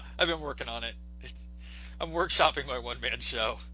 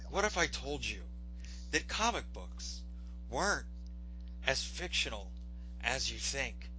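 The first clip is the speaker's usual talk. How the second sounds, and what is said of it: Imitates another person's voice. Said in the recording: “that was my Neil deGrasse Tyson impression.”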